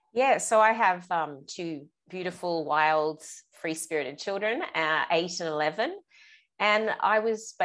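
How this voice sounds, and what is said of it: Australian accent. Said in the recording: “I love the Australian accent. ... yours is very fun.”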